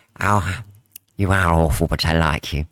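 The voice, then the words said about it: Put-on camp accent, imitates another person's voice. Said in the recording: “Go on, give us your gay accent.”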